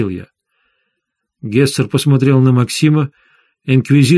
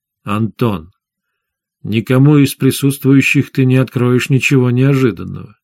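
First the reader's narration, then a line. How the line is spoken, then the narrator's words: Calm. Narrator (Russian): спокойно сказал шеф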